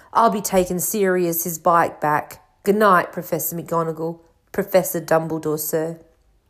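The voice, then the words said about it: Muffled voice as Hagrid. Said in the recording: “said Hagrid in a muffled voice.”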